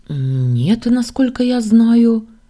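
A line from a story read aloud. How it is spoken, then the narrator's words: Confused reply. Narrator (Russian): растерянно ответила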